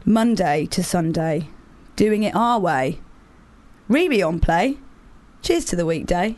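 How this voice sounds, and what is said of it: Mock-solemn reading of lyrics. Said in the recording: “I'm going to do this in my most solemn voice”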